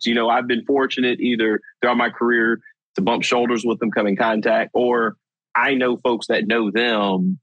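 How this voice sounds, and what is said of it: Rural Southwest Virginia accent. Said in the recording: “you can tell I'm pretty country. I got that, you know, this region accent right here from Southwest Virginia”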